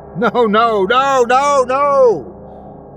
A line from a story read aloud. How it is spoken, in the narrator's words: Kenneth yelled